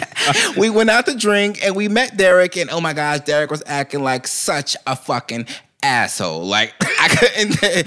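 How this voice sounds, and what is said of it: Put-on white girl voice, slightly deep. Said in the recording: “my favorite voice or accent I like to do is a white girl ... I could do it a little better when I was younger, but now I got a little bass in my voice”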